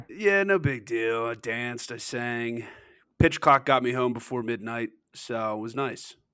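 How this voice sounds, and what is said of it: Rough, strained voice. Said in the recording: “My voice sounds terrible from being at the game last night. I was screaming way too much.”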